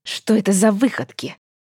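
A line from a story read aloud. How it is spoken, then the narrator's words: Barely restrained hiss. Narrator (Russian): зашипела женщина, с трудом сдерживаясь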